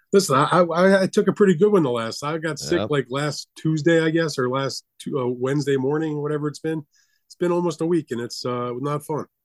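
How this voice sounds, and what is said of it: Slightly congested voice. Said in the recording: “I'm not as congested as I have been. You probably still hear it in my voice a little bit.”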